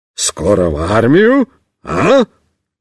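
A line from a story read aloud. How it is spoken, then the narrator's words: Cheerful exclamation. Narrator (Russian): бодро воскликнет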